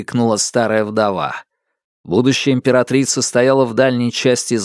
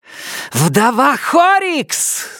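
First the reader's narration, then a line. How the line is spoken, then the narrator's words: Scream. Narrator (Russian): завопила Сизин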